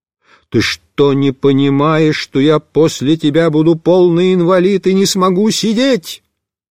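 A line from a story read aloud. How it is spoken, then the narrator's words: Yelling. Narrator (Russian): Я прямо заорал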